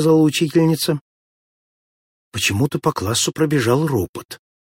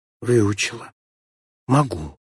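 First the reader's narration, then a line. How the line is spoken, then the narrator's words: Barely audible answer. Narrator (Russian): чуть слышно ответила Морозова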